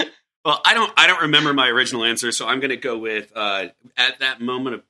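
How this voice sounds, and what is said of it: Usual voice. Nothing is said of it.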